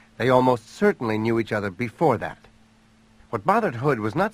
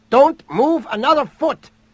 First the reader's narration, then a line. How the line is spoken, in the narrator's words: the woman's voice shout from behind her